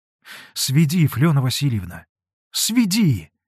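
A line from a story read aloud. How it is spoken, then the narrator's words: Joyful cry. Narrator (Russian): радостно вскрикнул Алексей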